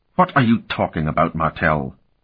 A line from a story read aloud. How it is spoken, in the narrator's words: Aeneas snapped